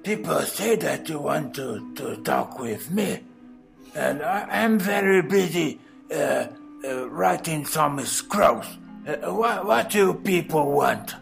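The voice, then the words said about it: Impressive character voice impersonation. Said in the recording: “that was a very impressive impersonation”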